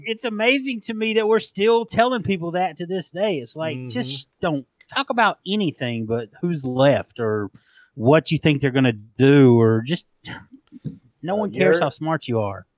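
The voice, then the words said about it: Southern US accent. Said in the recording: “with your amazing accent ... I love your accent, dude ... a northern accent sounding stupid compared to a southern accent ... I sound smart as a Southerner”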